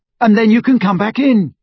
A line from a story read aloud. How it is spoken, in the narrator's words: he shouted after her